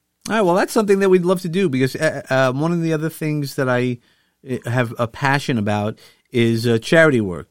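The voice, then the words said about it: New York accent. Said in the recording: “using my New York accent”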